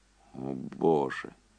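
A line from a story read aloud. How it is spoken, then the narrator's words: Barely audible. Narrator (Russian): едва слышно произнес Энди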